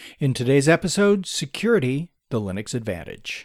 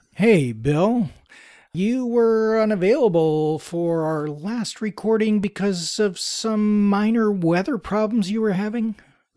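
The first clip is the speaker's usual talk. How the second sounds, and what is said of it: Sarcastic tone. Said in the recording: “That was sarcasm.”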